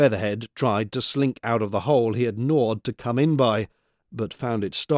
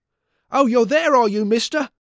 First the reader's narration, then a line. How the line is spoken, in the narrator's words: cried the boy